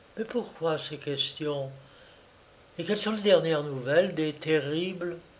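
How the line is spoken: Sighing. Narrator (French): soupira

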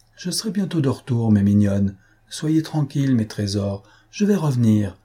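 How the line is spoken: Tender distant call. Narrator (French): leur criait-elle de loin, d'une voix tendre et douce

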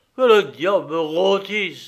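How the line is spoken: Grumbling. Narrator (French): grommela-t-il

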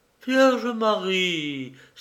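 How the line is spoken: Exclaimed. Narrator (French): s'écria Madame Müller

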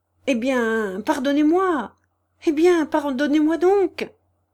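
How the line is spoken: Urgent pleading. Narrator (French): supplia instamment Gania

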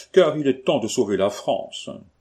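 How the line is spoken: Sighing, sincerely pious. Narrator (French): dit Monsieur de Gromance, avec le soupir d'une piété sincère

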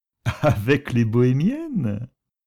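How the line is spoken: Laughing. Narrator (French): ajouta Nicolas en riant

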